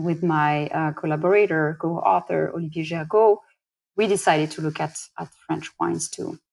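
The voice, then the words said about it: French accent in English. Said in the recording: “I am French. You know, I from my accent, I can't hide it, can't change it ... sorry for the listeners who are not used to the accent”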